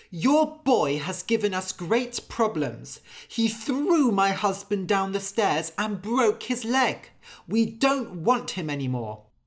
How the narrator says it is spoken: the priest's wife went to Anders' father and shouted

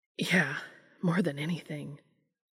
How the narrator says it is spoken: Dean said breathlessly

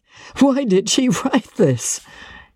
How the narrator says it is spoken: He asked, checking his laugh with a supreme effort

